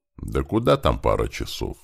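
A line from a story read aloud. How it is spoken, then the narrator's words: Calm reply, old veteran. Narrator (Russian): спокойно отвечал ему седоусый ветеран Тихомир, старший крепостной рати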